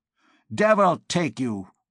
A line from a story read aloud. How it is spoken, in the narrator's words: growled Master André Mounier